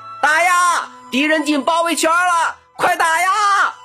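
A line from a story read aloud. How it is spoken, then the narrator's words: Loud shout while running. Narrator (Chinese): 郭迪海一边跑一边大声喊道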